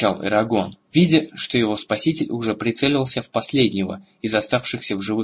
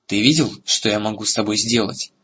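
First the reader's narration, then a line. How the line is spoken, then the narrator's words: Plain. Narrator (Russian): сказал ему Эрагон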